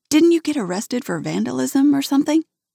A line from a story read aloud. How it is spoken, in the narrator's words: I laugh